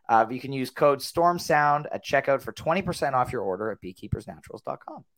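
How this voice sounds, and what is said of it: Strained, worn-out voice. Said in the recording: “you can tell my voice is a little bit shot”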